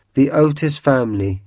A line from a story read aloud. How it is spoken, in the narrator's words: he said